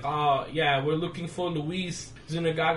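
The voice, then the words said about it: Imitating thick New York accent. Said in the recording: “a lady with a very thick New York accent.”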